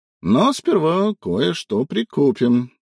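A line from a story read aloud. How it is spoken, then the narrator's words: Cheered-up voice. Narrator (Russian): сказал Симон повеселевшим голосом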